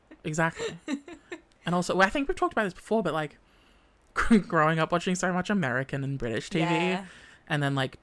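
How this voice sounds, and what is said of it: Australian accent. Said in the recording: “talking in this dog shit accent ... my accent. It was really rough being an Australian.”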